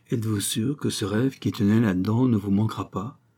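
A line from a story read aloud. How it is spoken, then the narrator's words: Gentle question. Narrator (French): questionna doucement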